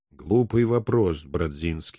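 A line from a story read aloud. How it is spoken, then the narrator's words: Dry reply. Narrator (Russian): сухо откликнулся месье Базиликус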